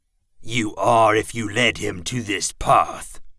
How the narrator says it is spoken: Pauz growled

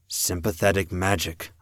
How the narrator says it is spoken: I murmured

